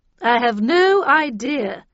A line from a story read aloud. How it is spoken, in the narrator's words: she replied